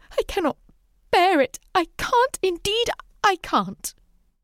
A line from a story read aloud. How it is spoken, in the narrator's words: Bathed in tears, sobbed out